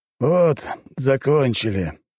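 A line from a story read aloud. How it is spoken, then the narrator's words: Tired, flat. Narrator (Russian): устало и без энтузиазма проговорил Торрен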